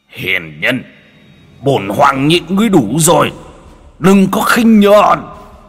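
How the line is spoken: Shout. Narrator (Vietnamese): Hư ảnh Phượng Hoàng hét lên

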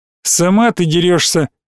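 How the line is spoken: Snorting. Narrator (Russian): хмыкнул Иванчиков

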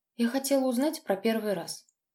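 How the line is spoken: Barely audible girl's reply. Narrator (Russian): еле слышно ответила девушка

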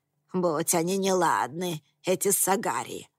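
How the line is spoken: Witch grumbling. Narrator (Russian): проворчала синяя ведьма

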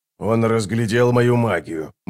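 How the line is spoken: Grumbling. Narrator (Russian): буркнул Оцелот

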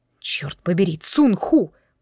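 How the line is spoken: Muttered. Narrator (Russian): пробормотал я

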